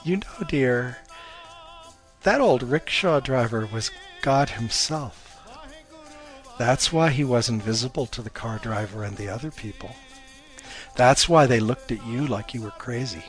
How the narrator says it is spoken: Her mom chuckled and said

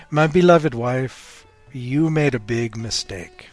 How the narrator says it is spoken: he said

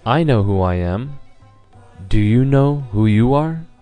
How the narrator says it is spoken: Lord Buddha again calmly looked in his eyes and he said

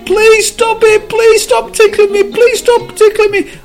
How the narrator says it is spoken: as he was being tickled, the cup screamed

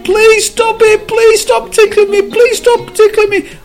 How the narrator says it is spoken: as he was being tickled, the cub screamed

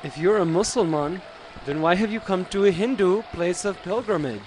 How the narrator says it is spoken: asked another

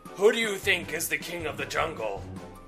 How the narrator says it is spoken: The lion roared

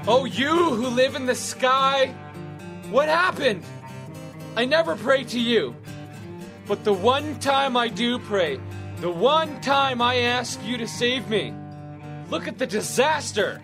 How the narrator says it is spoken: He shouted

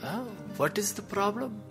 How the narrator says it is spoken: he calmly asked

